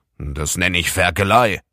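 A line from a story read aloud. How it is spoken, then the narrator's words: Annoyed grandfather grumbling. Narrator (German): brummte Opa Blom ärgerlich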